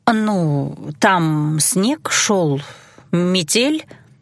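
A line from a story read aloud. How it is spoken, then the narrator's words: Reluctant drawl. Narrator (Russian): протянула я неохотно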